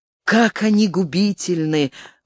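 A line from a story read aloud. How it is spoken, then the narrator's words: Exclamation. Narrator (Russian): воскликнул Задиг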